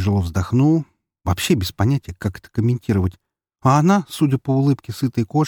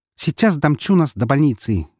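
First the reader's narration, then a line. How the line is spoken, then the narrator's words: Cheerful declaration. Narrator (Russian): весело заявила Вика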